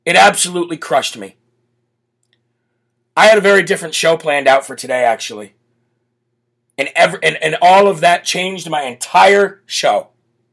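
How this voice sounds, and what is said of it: Emotional, choked-up voice. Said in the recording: “as you can hear, I'm getting a little... excuse me. I'm getting a little emotional about it”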